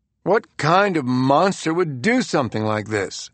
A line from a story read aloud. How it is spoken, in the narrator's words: Clippy said with a world-weary groan